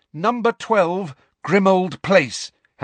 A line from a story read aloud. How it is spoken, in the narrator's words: Harry said loudly and clearly